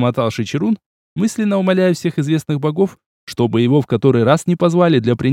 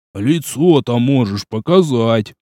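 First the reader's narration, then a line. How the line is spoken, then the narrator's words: Grumbling. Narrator (Russian): проворчал Жмых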